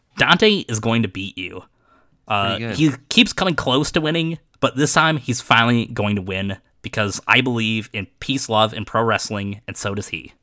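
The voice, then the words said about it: Imitates another person's voice. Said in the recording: “give us your best Matt Sydal impression ... That was like still not even as like wussy as he sounds.”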